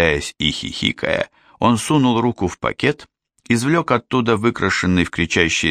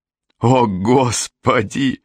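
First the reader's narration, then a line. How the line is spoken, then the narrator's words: Sudden burst of laughter. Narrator (Russian): расхохотался Стивен неожиданно для себя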